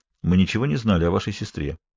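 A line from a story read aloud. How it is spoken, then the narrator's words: Quiet. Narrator (Russian): негромко произнес Каллен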